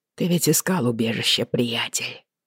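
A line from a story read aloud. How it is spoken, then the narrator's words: Muttering. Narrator (Russian): пробормотал он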